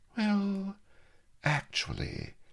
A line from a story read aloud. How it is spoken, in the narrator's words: smiled Mistress Bonny dreamily